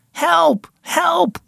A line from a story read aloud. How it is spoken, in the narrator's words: Lucas screamed